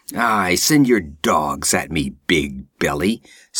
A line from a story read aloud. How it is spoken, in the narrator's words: sneered Conan with bitter scorn